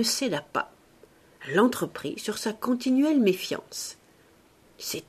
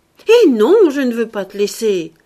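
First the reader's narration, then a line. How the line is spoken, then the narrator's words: Impetuous old woman shouting. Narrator (French): cria-t-elle avec son impétuosité ordinaire malgré son grand âge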